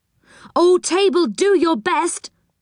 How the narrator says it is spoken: cried Joe

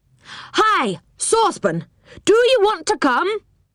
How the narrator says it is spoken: shouted, leaning down the tree

